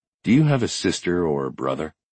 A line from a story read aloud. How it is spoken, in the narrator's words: asked in a low voice